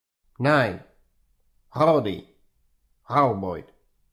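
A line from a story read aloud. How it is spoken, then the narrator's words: Plain. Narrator (Russian): ответил Юрген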